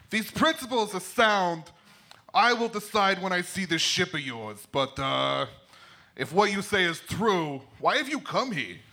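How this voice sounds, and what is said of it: Put-on Croatian accent. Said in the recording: “Tesla speaks in an authentic Croatian accent.”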